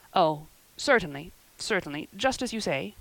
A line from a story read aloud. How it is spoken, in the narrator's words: stammered unhappy Matthew